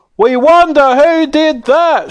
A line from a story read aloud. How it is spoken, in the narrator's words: shouted the fans in the bleachers